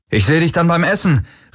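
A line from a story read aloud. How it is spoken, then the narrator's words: Called out. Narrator (German): rief er Kirai zu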